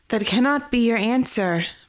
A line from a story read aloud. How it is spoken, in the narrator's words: Mara shouted at her back